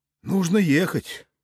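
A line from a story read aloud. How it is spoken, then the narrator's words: Sighing. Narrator (Russian): вздохнул я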